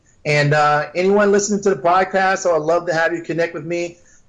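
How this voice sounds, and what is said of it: Excited, energetic voice. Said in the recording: “I get excited. You can hear it in my voice.”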